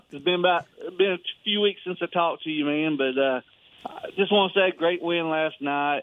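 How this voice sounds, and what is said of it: Southern American accent. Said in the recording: “This is your favorite Southern accent that you like to hear.”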